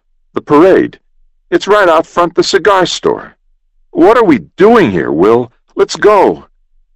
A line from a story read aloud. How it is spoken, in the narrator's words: exclaimed Jim